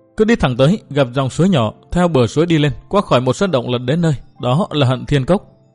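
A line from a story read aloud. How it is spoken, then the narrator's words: Sobbing. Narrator (Vietnamese): Uyển Thanh nức nở nói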